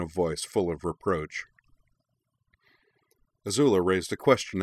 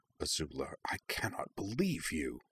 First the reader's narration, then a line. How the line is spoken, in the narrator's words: Zuko regarded the scene with something very like horror … murmured